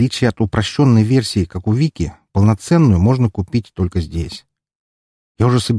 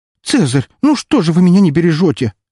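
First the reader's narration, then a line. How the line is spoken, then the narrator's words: Girl exclaiming. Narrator (Russian): воскликнула девушка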